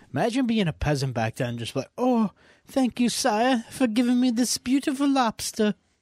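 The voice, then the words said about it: Put-on old-fashioned peasant accent. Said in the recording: “I don't know why I did the accent. ... the accent was fucking pretty right on.”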